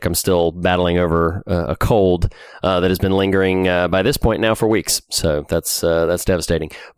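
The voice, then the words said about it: Congested, slightly sick voice. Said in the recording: “I sound a little congested, a little sick”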